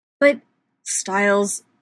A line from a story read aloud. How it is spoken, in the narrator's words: Derek growls